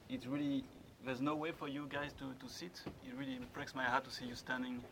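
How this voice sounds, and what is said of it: Strong French accent. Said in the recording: “my French accent is very strong”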